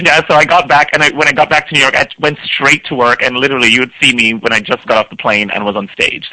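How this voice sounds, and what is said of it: Voice sounds sick with a cold. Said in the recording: “I'm laid up in bed with a cold. ... As you can tell from my voice.”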